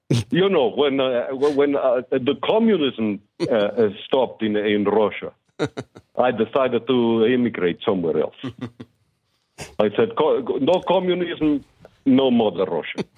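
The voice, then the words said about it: Put-on Russian accent. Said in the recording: “Is his Russian good? Because I'm impressed by his accent. ... It's pretty good”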